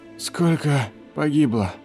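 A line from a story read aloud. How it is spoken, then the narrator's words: Wheezing. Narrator (Russian): просипел Клейн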